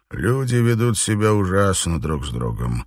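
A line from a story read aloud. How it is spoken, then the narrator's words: Sad mutter. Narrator (Russian): печально пробормотал он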